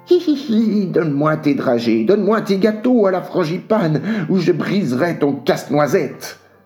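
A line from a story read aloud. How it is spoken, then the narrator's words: Hissing. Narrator (French): siffla le roi des souris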